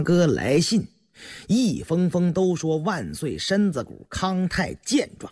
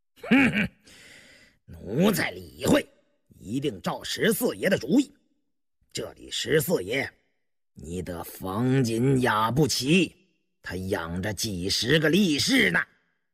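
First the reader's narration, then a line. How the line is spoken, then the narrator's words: Sinister laugh. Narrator (Chinese): 鄂伦岱狞笑了一声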